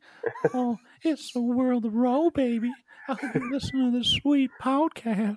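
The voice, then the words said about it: Thurbert character voice. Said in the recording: “in a Thurbert voice ... some Thurbert”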